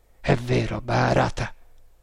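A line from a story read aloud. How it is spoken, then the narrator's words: Muffled, hollow reply. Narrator (Italian): rispose MacPherson con voce sorda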